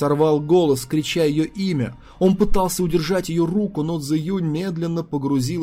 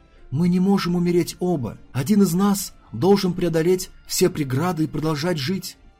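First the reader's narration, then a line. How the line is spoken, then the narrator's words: Quiet speech. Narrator (Russian): Цзэ-Юнь тихо говорит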